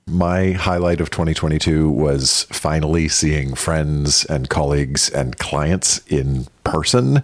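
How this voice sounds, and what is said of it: Rich radio announcer voice. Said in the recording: “a man with a radio voice”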